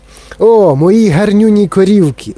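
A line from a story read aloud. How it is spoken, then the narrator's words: Exclaimed. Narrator (Ukrainian): вигукнув містер Вонка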